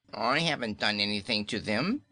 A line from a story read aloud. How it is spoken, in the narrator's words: whined Kaliko, trembling